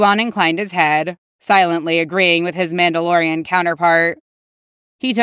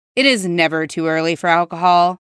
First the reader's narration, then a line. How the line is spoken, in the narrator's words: Cody replied evenly